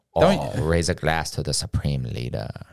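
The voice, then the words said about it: Deliberately bad put-on foreign accent. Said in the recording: “a bad accent, by the way. ... I can't do it. ... That's as good as it's gonna get. ... Yeah, that's pretty good.”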